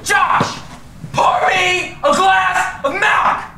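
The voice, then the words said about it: Yelling loudly. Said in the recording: “Why are you yelling at me?”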